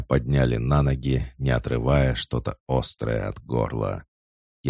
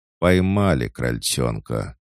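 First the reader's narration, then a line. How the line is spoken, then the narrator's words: Laugh from behind. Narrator (Russian): хохотнул кто-то позади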